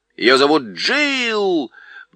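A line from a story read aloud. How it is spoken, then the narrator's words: Loud shout. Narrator (Russian): громко крикнула сова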